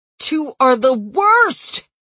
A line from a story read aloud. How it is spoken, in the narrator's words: he yelled